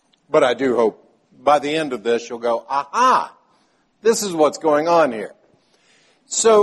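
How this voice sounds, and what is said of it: Usual voice. Nothing is said of it.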